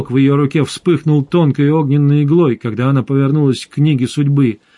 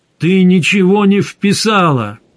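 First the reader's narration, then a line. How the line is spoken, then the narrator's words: Shouting. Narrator (Russian): крикнул Гессер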